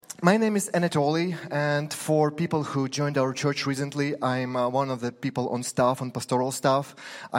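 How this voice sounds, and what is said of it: Slight Ukrainian accent. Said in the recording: “I'm a Ukrainian fellow. You can hear a little bit of accent in my perfect English.”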